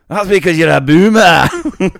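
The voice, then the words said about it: Put-on Scottish accent. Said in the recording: “in a Scottish accent would be funnier”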